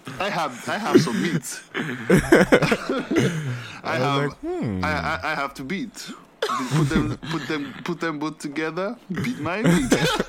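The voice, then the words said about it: Odd put-on accent. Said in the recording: “What the fuck is that accent?”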